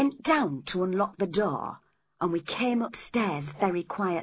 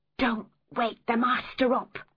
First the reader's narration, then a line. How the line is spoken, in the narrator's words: I whispered